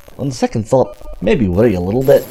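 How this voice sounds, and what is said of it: Put-on Scottish accent, slightly Russian. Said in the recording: “he has a Scottish accent now ... You're slightly dipping into Russian.”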